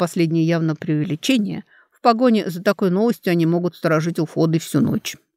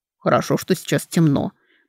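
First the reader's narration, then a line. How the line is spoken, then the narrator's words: Mutter. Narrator (Russian): пробормотал Карей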